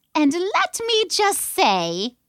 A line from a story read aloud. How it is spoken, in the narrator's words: Zlot piped up